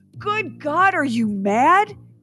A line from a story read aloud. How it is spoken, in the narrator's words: cried aghast